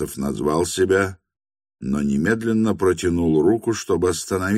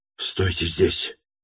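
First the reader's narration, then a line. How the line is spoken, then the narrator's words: Quick whisper. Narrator (Russian): быстро прошептал он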